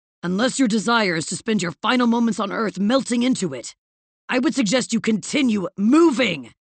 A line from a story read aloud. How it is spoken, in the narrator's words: the villain bellowed